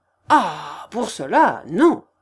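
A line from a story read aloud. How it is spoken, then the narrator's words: Angry exclamation. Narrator (French): s'écria Séguin d'un air de colère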